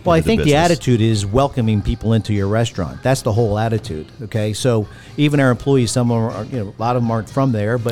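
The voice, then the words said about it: Philadelphia accent. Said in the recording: “You still have the accent, which I love and I'm super impressed by... that Philly kind of attitude”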